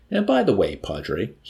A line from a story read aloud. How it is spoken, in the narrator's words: he warned coldly